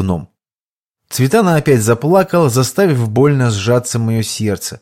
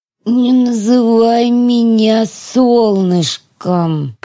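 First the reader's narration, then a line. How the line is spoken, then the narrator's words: Pained groan. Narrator (Russian): простонала Теона, сплюнув кровь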